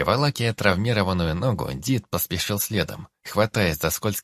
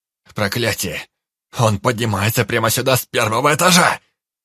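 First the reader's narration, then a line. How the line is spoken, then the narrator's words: Breathless shout from below. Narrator (Russian): Закричал с нижнего лестничного пролета Анджей, перепрыгивая сразу через несколько ступенек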